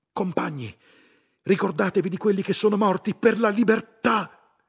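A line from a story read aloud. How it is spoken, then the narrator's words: Someone shouting. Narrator (Italian): qualcuno gridò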